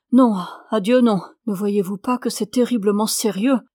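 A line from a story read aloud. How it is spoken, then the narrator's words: Nervous exclamation. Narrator (French): s'écria Doane nerveusement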